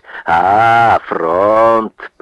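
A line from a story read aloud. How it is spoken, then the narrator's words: Friendly, smiling greeting. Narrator (Russian): приветливо разулыбил свое рябое лицо мужчина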